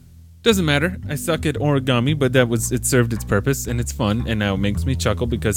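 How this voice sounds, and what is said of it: Usual voice. Nothing is said of it.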